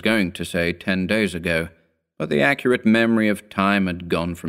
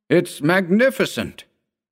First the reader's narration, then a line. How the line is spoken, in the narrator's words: he cried